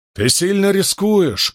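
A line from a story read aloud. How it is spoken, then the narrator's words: Loud. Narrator (Russian): громко сказал Крас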